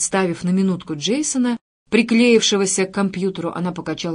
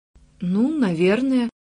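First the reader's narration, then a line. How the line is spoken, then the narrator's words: Uncertain reply. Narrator (Russian): ответила она неуверенно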